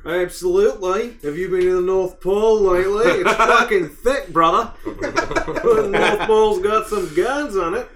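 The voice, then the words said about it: Weird put-on Australian accent. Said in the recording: “I don't know why I'm talking in a weird, stupid Australian accent.”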